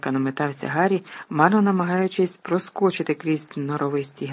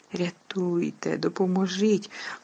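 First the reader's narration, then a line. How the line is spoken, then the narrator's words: Flustered whisper. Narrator (Ukrainian): увіччя шепотіла Герміона, розгублено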